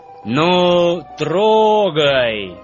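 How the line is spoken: Loud command. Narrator (Russian): громко скомандовал главный вожак

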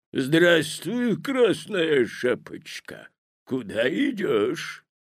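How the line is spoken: Hoarse bass voice. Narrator (Russian): спросил волк хриплым басом

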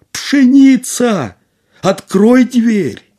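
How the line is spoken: Slightly frightened shout. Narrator (Russian): Касим немного испугался, крикнул опять

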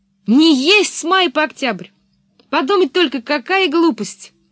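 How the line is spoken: Shouted after someone. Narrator (Russian): крикнула вдогонку девочке

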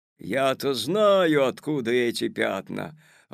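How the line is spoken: Sudden menacing shout. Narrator (Russian): вдруг грозно закричал дядя Федя

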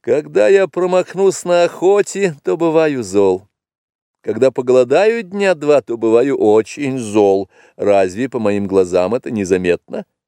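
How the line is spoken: Laughing reply. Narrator (Russian): тот ответил ей, засмеявшись

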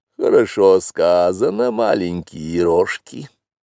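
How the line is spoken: Purring. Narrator (Russian): промурлыкала Багира

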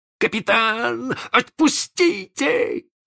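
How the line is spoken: Squirming yell. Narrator (Russian): завопил Белоручка, извиваясь

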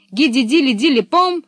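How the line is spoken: Exclamation. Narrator (Russian): воскликнула Пеппи

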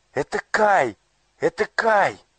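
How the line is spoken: Joyful exclamation. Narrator (Russian): радостно воскликнула Герда

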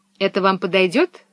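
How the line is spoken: Plain. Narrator (Russian): спросил он

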